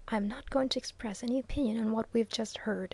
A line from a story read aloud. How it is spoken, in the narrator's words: whispered Viner